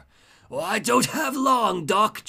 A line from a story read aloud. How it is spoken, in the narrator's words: Joker wheezes